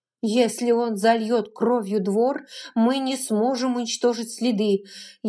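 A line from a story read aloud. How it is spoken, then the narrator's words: Barely breathed out. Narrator (Russian): Еле выдохнула она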